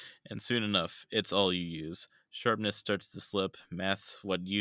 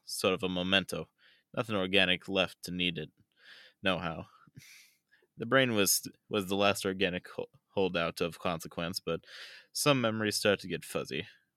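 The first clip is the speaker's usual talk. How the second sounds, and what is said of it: Put-on accent while reading aloud. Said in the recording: “I can't maintain this accent. I'm just going to talk normally.”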